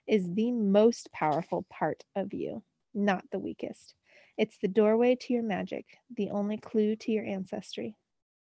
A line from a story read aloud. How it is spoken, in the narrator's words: said slowly